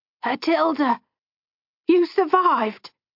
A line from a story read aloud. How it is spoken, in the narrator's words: she exclaimed